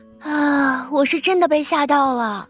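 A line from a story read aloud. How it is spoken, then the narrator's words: Young nurse exclaiming. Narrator (Chinese): 小护士感叹不已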